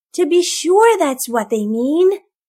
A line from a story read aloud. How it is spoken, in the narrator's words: cried Tom Kist